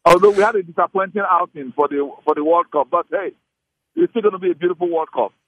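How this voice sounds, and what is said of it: Nigerian accent. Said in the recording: “When I hear your accent, I know it's like music to my ears ... since you're Nigerian Super Eagles fans”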